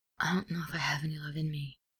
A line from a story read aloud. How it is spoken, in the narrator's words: Ed whispers